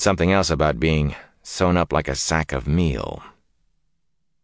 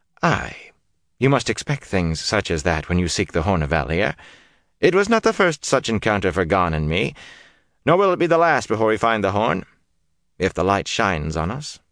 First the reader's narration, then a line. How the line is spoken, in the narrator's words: In an elaborately casual tone, he said